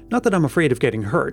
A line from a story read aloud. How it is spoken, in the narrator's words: Helen added hastily, realizing the suspicion of cowardice that might rest against her